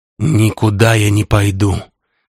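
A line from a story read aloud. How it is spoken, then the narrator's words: Forced out. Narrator (Russian): выдавил Кирилл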